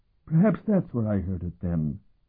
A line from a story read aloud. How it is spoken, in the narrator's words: Arasham mumbled complacently